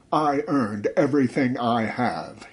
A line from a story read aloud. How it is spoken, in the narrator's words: he roared, his voice trembling more with indignation than fear